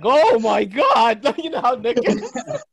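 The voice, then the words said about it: Imitates another person's voice. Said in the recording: “that's a great impression.”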